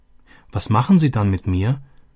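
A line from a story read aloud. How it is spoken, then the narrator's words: Anxious question. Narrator (German): erkundigte sich Robby ängstlich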